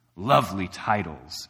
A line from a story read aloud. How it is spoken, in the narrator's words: sneered the dragon